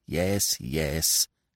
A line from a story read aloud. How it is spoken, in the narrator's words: she grumbled